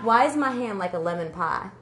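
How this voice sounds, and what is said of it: Put-on Southern twang. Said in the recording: “I'm going to say this in a southern twang.”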